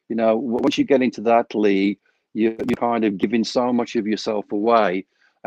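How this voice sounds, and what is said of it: Accent resembling a famous musician's. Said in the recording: “I thought I was listening to John Lennon for a second when you were speaking about love... Your accent.”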